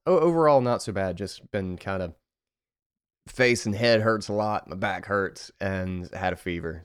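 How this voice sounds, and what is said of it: Slightly congested voice. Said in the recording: “I might sound, like, a little bit congested”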